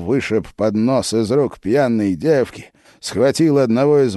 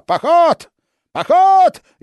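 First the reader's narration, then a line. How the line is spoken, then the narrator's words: Frenzied shouting. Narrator (Russian): исступленно кричал он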